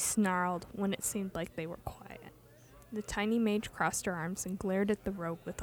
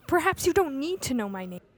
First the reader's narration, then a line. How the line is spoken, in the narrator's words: Ilya snapped